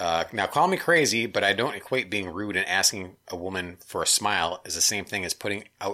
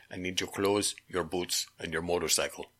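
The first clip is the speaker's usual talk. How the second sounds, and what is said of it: Poor Terminator movie-character impression. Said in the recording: “that was my worst impression ever”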